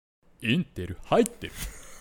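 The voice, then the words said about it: Imitation in a low, deep voice. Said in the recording (Japanese): “クリス・ペプラーさんのモノマネ ... クオリティは置いといて ... 声が低くていい感じなんですよ”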